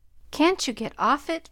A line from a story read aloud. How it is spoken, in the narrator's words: pleaded his father